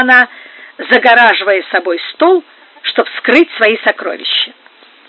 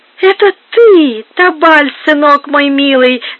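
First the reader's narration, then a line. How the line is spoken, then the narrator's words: Squeaky old woman. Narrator (Russian): запищала старуха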